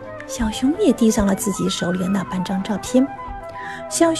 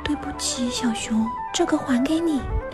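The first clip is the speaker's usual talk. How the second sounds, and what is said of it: Soft, quiet voice. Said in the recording (Chinese): “小声地说”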